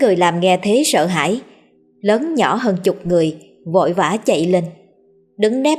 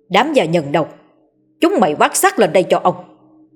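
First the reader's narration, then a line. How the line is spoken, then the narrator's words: Enraged shout. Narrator (Vietnamese): ông hất tung cả bàn đồ ăn mà quát lên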